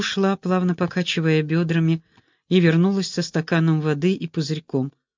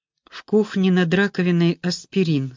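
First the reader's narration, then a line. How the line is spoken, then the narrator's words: Plain. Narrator (Russian): сказал я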